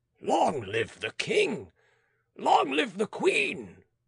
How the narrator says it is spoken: roared Belay

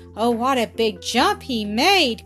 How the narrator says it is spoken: cried Grandpa Bumper

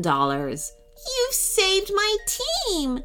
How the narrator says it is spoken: she sobbed happily

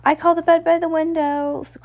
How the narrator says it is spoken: cried Lucy

